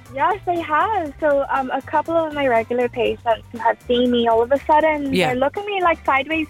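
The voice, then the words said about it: Irish accent. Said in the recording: “That's the Irish accent.”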